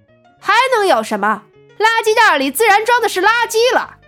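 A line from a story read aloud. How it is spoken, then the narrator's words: Loud older woman. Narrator (Chinese): 保洁大妈大声的道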